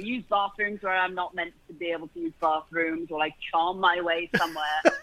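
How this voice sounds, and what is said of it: British accent. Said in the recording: “how can you get mad at anybody with a British accent?”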